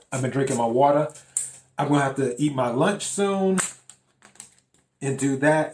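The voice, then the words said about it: Raspy, slightly hoarse voice. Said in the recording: “my throat is a little bit raspy. It's kind of sore.”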